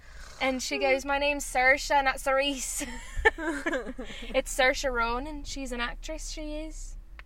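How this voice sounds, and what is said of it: Put-on Irish accent, Saoirse Ronan. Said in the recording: “That's how I learned how to do an Irish accent. ... I listened to Saoirse Ronan”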